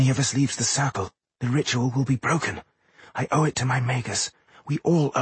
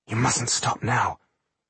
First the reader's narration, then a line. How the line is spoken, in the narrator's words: whispered Jolasin